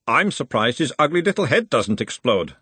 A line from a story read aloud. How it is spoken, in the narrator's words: said Fassel